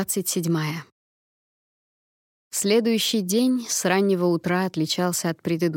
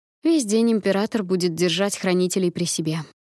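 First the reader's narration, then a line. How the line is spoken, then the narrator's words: Grumbling. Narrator (Russian): проворчала наместница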